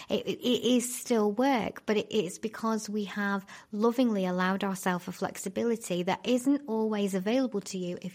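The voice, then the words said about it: Excited, energetic speaking. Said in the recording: “I know I'm getting excited. I can hear it in my own voice.”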